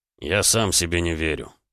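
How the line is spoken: Muttered. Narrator (Russian): пробормотал Рома

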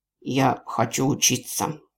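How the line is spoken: Breathless wheeze. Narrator (Russian): кое-как продышавшись, Лоренс просипел

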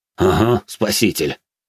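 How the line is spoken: Scoffing grunt. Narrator (Russian): хмыкнул Зод

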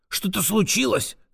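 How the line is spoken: Whisper. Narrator (Russian): зашептал

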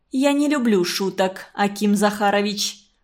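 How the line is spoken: Stern but unsure. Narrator (Russian): строго, но не очень уверенно сказала Марина Федотовна

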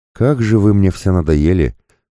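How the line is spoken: Weary sigh. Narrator (Russian): вздохнул

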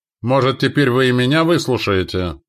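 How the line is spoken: Shout. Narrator (Russian): крикнула нам Видана

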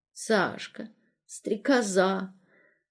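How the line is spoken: Muttering. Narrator (Russian): бормотал

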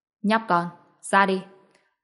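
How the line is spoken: Cold. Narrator (Vietnamese): Ông ta lạnh lùng nói

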